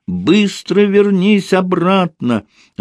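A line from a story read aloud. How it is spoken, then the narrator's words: Shouting. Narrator (Russian): И снова закричала Антошке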